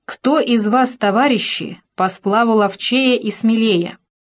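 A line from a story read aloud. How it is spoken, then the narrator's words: Loud, distinct. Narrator (Russian): Он сказал громко и раздельно, чтобы было слышно многим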